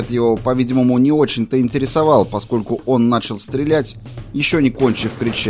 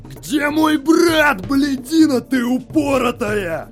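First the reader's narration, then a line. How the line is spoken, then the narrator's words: Shouting. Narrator (Russian): кричал Клаудио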